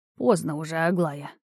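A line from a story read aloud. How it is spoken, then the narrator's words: Tired old man sighing. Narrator (Russian): устало вздохнул старый целитель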